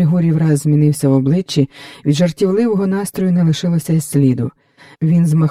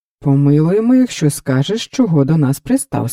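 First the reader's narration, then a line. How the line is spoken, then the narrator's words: Plain. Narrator (Ukrainian): сказав Леон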